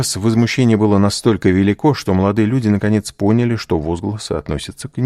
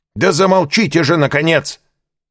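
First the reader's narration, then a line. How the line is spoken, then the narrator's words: Repeated shout from audience. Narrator (Russian): в третий раз крикнули из партера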